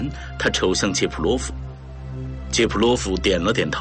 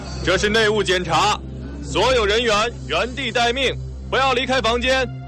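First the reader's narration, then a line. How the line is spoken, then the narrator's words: Loud announcement. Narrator (Chinese): 库拉科夫在走廊里大声宣布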